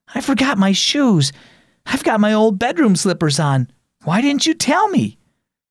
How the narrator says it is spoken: gasped

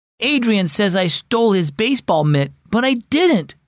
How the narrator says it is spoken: replied Sawyer angrily

